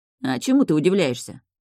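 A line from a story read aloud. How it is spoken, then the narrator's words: Smirking grunt. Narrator (Russian): хмыкнул Энджин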